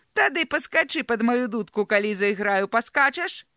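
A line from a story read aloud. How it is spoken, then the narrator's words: Giggling. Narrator (Belarusian): захіхікала пані Моль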